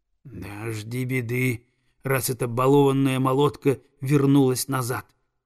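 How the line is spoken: Spiteful hiss. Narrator (Russian): злобно прошипела прекраснокрылая

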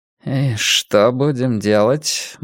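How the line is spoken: Gloomy question. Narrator (Russian): мрачно спросил Блор

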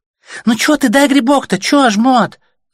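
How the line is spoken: Girl's squeaky voice. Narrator (Russian): запищала девчонка

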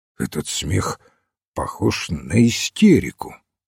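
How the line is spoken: Embarrassed, flustered remark. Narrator (Russian): немного смутившись, заметил Рок и растерянно обратился к маленькому священнику

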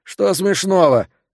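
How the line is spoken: Irritated question. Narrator (Russian): раздраженно спросил Хэрод

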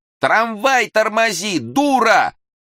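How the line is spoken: Commanding yell. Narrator (Russian): начальственный вопль

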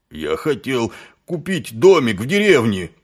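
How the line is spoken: Moaning. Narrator (Russian): простонал Колон

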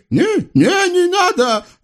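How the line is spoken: Shrieking. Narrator (Russian): завизжал Халил

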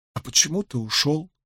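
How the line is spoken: Muttering. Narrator (Russian): пробормотала Илэйн

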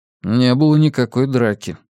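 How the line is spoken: Plain. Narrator (Russian): сказал Йона

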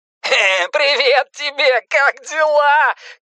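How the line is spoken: Shouting through dangling phone. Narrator (Russian): кричал Пеннивайз из свисающей со стола болтающейся трубки

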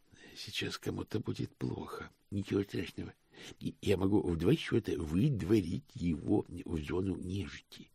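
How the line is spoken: Whisper. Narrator (Russian): прошептал в ответ Икс

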